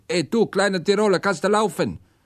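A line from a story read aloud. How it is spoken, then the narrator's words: Call. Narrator (German): Dieser rief mir und sagte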